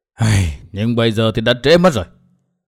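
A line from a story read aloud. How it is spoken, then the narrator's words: Sighing old man. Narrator (Vietnamese): Nam Hải Kỳ lão thở dài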